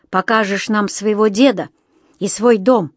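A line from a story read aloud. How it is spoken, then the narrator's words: Growl. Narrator (Russian): прорычал Ведер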